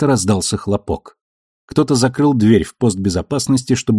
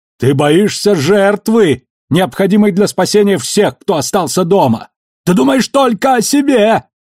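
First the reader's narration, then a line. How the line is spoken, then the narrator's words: Yelling back. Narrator (Russian): заорал в ответ Кортес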